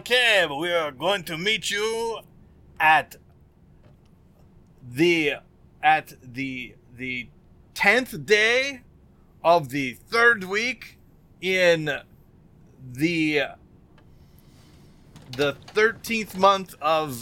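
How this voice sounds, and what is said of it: Mock French accent. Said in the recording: “I love your French accent”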